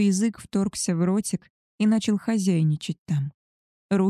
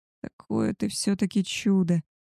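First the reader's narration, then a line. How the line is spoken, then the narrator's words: Moaned. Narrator (Russian): простонал Габриэль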